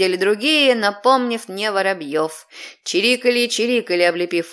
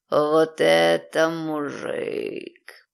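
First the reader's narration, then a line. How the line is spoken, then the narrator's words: Drawling. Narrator (Russian): протянул Ариати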